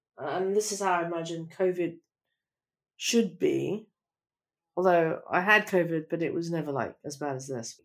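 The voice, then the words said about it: Sick, congested voice. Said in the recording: “Probably can hear from my voice, I'm sick.”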